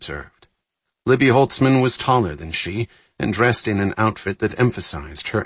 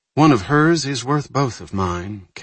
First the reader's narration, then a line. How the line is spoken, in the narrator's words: Kathy noted, managing not to sigh